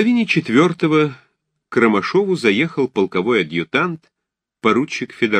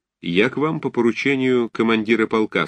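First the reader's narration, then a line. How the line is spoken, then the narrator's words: Dry tone. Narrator (Russian): сказал Федоровский сухим тоном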